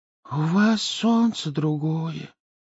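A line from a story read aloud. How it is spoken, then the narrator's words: Breathed out. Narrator (Russian): выдохнул ежик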